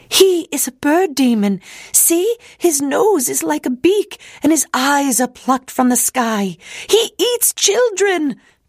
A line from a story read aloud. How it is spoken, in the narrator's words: people would shriek as they ran away from Belle and John